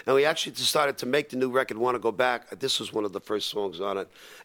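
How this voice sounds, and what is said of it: Slightly hoarse speaking voice. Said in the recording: “we're a little hoarse. I did 5 shows in a row.”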